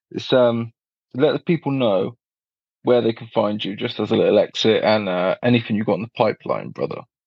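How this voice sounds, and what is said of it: Posh-sounding accent. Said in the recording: “you got the cool accent too ... because of my accent, it's very redeeming and it makes me sound posh.”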